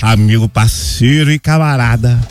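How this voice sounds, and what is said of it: Imitates another person's singing voice. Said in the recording (Portuguese): “imitando o Diogo Nogueira ... a imitação dele tá curtinha ainda”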